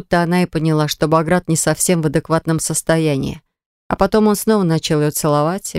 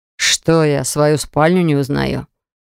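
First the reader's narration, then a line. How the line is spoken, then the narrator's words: Displeased growl. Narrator (Russian): Рыкнул недовольно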